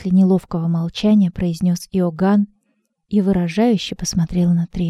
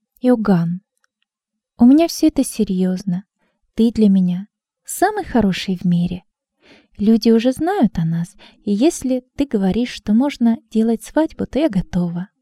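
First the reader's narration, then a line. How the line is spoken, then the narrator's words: Calm reply. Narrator (Russian): Трина спокойно ответила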